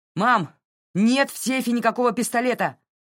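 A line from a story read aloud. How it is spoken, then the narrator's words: Shouted from the hallway. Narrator (Russian): крикнул из коридора Джей Ар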